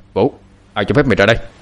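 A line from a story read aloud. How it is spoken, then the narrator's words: Stunned shout. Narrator (Vietnamese): Quan ông sững người quát lên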